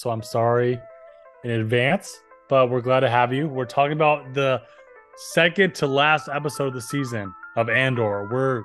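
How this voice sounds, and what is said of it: Voice sounding weird. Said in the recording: “My allergies are up, so my voice is sounding weird like this”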